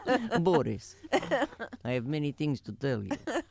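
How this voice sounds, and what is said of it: Attempted Russian accent. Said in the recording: “I don't really have a Russian accent. That's as close as it gets.”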